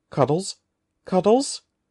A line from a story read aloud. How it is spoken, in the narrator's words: called in a frightened voice